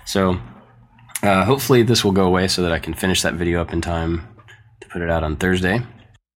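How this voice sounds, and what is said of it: Croaky, hoarse sick voice. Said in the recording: “if you can't tell from my voice, I've been sick ... I sound like a frog”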